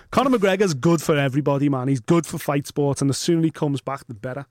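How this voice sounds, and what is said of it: Strong Scouse accent. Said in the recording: “with that accent of yours ... Press the red button to find out what this mad scouse is saying.”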